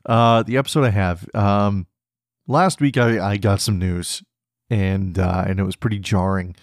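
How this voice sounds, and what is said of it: Strained, failing voice. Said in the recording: “My voice is failing me this morning. I feel like I'm going to cough.”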